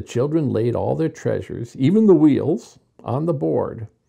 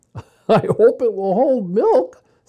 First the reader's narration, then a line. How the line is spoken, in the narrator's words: said Jessie, laughing